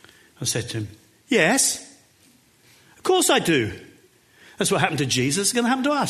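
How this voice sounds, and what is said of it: Usual voice. Nothing is said of it.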